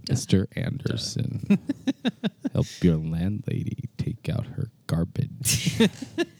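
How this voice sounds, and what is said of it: Quiet imitation of a film villain. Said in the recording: “that your Agent Smith impersonation? ... If you could say it above like 20 decibels, it might be convincing.”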